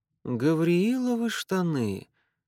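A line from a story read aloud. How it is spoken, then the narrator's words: Muffled, detached mutter. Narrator (Russian): глухо и отрешенно пробормотал он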